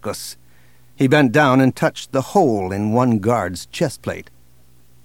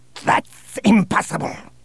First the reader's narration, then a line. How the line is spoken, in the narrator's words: snapped Bossk